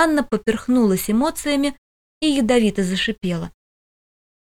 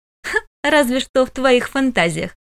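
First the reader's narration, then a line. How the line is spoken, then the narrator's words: Scoffing snort. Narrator (Russian): фыркнула сестричка Кронса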